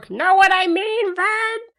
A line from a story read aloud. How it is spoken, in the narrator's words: the crowd screamed World's trademark